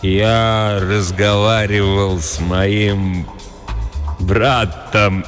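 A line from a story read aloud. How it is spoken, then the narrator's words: Speaking, then laughing. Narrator (Russian): сказал Кроули и засмеялся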